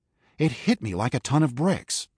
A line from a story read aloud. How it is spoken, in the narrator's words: Marcus exclaimed